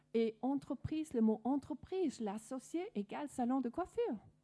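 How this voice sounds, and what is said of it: Danish accent speaking French. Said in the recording (French): “vous pouvez sûrement entendre de mon accent que je suis pas, ma langue maternelle n'est pas française, je suis danoise d'origine”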